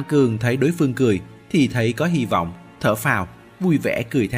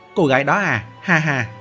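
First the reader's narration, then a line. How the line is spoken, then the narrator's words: Loud laughing. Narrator (Vietnamese): Thư sinh cười to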